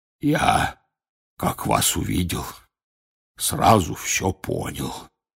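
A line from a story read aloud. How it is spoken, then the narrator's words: Hoarse voice. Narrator (Russian): раздался почему-то охрипший голос Хагрида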